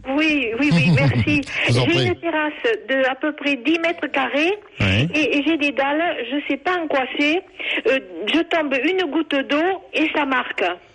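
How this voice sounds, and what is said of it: Southern French regional accent. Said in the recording (French): “ça s'entend ... à votre accent, on se doute que vous êtes dans le sud”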